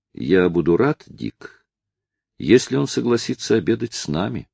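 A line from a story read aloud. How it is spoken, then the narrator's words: Plain. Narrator (Russian): ответил Мармадюк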